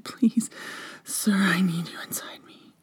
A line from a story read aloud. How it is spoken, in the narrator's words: I panted